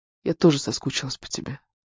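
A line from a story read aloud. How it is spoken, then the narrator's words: Woman's whisper. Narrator (Russian): Женщина прошептала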